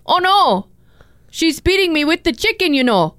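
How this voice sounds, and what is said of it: Put-on Midwestern accent. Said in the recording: “We need a Midwestern accent.”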